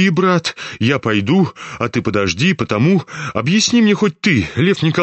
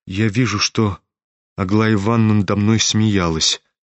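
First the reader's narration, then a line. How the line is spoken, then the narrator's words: Sad reply. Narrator (Russian): грустно ответил князь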